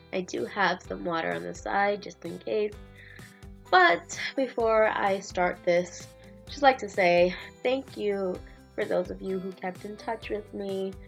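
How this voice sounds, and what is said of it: Scratchy, hoarse voice. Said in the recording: “how horrible my voice sounds right now. Very scratchy.”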